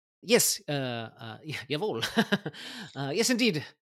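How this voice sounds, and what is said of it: Put-on foreign accent. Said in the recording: “I have to switch my brain a little bit to get the accent right.”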